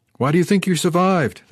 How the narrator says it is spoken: shouted at him

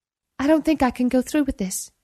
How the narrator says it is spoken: said

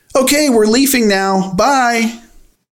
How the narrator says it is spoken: Without thinking, I shouted

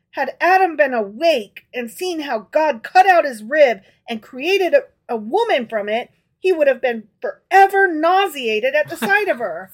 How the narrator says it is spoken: said the princess triumphantly

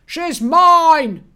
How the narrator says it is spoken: Frozzy screamed

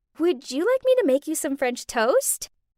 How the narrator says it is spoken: in my cutest voice, I asked him

